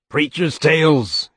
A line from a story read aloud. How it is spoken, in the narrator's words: he would roar at them